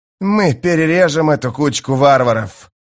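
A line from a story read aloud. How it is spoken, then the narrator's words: Growling. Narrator (Russian): прорычал Мескер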